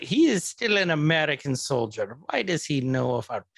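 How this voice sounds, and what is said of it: Poor put-on Wakandan accent. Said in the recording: “you are butchering the accent... I'm terrible... I cannot do Wakandan”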